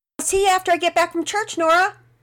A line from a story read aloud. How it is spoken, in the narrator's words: Penelope, who called out